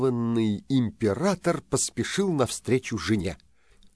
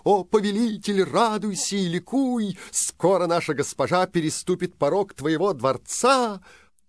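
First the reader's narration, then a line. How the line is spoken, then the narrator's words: Servants shouting joyfully. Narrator (Russian): слуги радостно закричали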